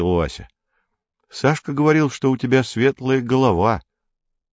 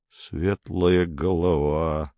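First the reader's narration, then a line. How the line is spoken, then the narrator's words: Mumbled. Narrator (Russian): пробормотал Поль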